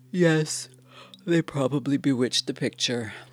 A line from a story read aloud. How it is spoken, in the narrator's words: I said, yawning